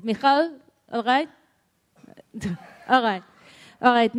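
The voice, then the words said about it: Put-on Israeli accent. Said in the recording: “this is my Israeli accent.”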